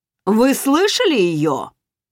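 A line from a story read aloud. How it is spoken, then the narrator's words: Booming voice. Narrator (Russian): прогремел голос Райфа у меня за спиной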